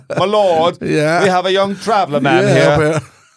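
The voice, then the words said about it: Put-on British accent. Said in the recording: “that British accent they have”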